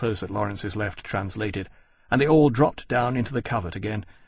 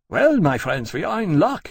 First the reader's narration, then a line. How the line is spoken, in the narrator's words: Dyhern called back to all the formation cheerfully